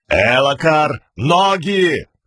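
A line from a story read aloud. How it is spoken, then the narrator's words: Shouted. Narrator (Russian): крикнул великий князь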